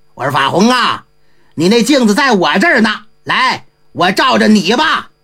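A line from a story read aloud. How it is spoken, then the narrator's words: Hearty laugh. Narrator (Chinese): 济公哈哈一笑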